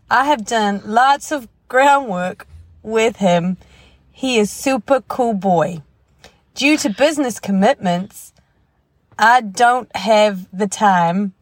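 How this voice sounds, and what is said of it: Put-on Southern American accent. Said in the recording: “I don't know where that southern accent came from.”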